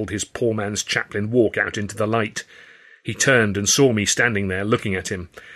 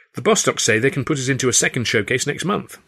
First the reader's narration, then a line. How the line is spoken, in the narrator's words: Stan said